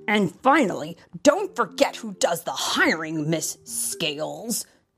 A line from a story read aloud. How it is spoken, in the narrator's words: sputtered the principal